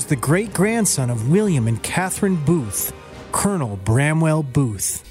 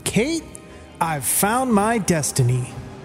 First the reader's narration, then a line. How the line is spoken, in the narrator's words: shouted